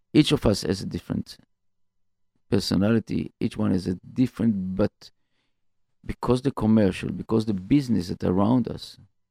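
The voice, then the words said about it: Non-native English accent. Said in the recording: “sorry about my accent, my English”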